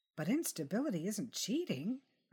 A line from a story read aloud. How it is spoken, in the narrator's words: I said, my voice rising at the end of the sentence like I was asking a question